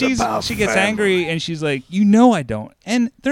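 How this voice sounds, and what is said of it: Usual voice. Nothing is said of it.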